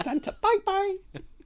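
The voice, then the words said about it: Imitates a character's voice. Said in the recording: “It's quite a good impression.”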